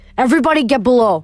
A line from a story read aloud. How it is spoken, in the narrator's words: yelled